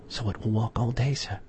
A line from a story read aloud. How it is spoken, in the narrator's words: whispered Poole